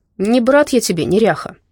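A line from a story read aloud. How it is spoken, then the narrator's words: Grumbled. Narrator (Russian): проворчал Давыдов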